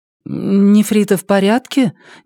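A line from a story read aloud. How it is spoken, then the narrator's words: Uncertain question. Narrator (Russian): неуверенно спросила Елея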